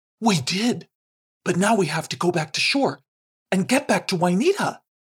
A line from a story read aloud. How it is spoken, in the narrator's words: exclaimed Punchem